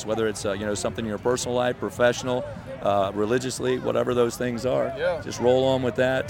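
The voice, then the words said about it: Gravelly radio voice. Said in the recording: “Y'all hear the radio voice already. It's natural. ... It's a little gravelly today.”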